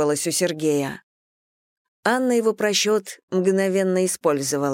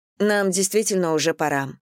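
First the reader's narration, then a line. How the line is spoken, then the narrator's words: Plain. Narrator (Russian): сказала она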